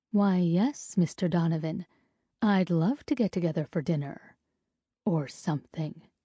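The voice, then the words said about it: Sultry, sensual voice. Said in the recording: “in my most sensual voice”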